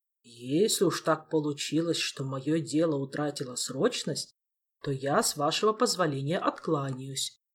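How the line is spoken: Plain. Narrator (Russian): сказал он

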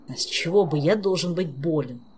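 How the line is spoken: Grumbling. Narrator (Russian): Проворчал

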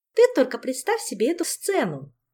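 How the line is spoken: Cheerful. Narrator (Russian): весело продолжала Ольга

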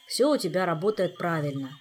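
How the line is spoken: Gloomy. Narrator (Russian): мрачно сообщил спутник

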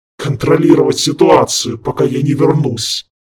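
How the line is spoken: Angry, clipped. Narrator (Russian): Зло отчеканил демон

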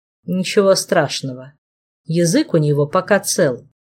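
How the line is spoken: Dry, curt remark. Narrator (Russian): Флавиус сухо обронил

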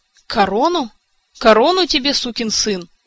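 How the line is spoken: Barked. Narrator (Russian): Шалар как рявкнет

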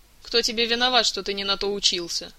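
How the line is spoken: Smirking snort. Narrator (Russian): хмыкнул капитан Полянский, он же полевой агент Соколов

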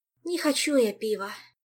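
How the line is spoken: Sighing. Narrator (Russian): вздохнула Ольга

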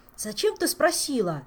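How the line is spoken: Exclaiming. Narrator (Russian): воскликнул Жак

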